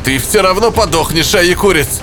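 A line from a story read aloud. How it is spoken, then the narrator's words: Angry shout. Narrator (Russian): злобно прокричал Реблат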